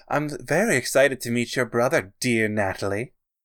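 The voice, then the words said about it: Attempted feminine voice, Vincent Price-like. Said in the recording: “Vincent Price sounding ... This is me trying to do a feminine voice.”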